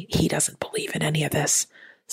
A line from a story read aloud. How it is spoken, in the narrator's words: the wife whispered